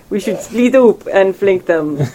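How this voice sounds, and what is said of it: Put-on accent. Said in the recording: “I bet you Slack me in accent.”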